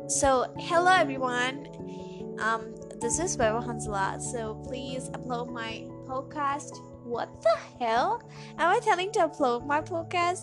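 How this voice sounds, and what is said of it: Mixed Indian and American accent. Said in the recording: “my accent is really kind of Indian and an American mixture”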